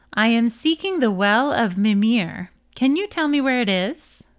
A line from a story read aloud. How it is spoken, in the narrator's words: he answered calmly